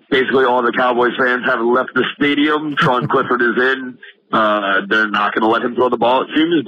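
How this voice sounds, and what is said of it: Hoarse, strained voice. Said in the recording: “Lost my voice.”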